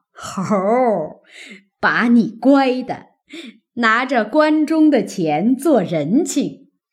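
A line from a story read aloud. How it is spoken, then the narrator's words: Laughing. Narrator (Chinese): 贾母听了，笑道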